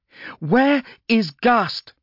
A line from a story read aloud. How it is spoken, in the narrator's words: she shouted